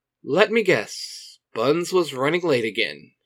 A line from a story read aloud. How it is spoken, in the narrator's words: he says with a chuckle